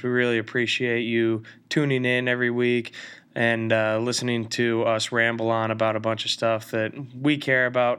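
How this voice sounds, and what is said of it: Voice sounds different, sick. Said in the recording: “My voice may sound a little bit different. I've been battling the flu”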